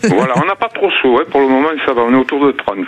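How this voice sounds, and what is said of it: Southern French regional accent. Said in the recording (French): “Avec votre petit accent, vous êtes d'où d'ailleurs? ... D'à côté d'Arles. Ah, dans les Bouches-du-Rhône.”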